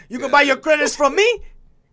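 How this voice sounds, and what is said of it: Poor put-on Italian mobster accent. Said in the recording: “I'm a terrible Italian accent”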